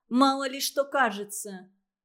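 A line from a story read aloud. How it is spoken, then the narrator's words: Rude interruption. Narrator (Russian): грубо перебила Анна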